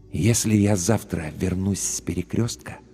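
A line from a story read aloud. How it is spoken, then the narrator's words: Very quiet, distinct whisper. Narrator (Russian): прошептал он очень тихо, но очень отчетливо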